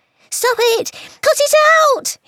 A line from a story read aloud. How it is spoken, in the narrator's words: He squealed